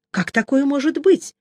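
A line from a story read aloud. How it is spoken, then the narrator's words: Frightened, incredulous question. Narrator (Russian): спросил я испуганно и недоверчиво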